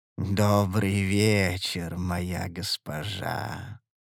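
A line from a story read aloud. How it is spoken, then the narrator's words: Sweet drawl. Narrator (Russian): Сладко протянул сутулый незнакомец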